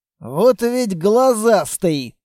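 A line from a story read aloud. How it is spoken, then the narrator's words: Amused snort. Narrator (Russian): хмыкнул Строгов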